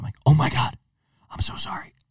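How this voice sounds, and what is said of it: Whispering. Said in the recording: “But I'm whispering like this.”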